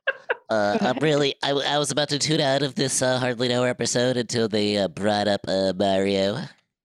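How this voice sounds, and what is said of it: Nasal nerdy voice. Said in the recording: “nerd voice ... Sounds like he has a sinus infection.”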